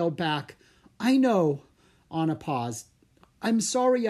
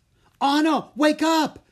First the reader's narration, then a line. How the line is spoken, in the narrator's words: Drake yelled